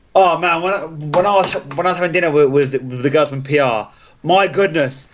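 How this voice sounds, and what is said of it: Speaks with a noticeable accent. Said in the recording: “you said Phenomenal kind of weird ... Accent.”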